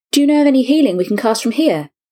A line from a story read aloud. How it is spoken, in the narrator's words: He asked desperately